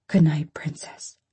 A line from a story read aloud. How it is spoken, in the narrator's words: my daddy whispers